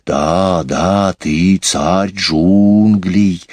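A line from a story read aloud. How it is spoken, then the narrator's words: Hissing in chorus. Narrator (Russian): дружно зашипели змеи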